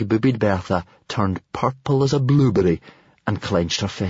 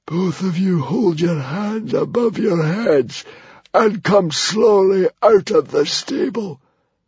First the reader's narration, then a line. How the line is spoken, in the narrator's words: barked a hissing croak of a voice